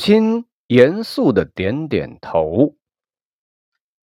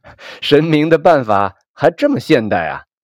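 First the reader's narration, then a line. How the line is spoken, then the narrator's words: Joking. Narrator (Chinese): 我和母亲开玩笑的说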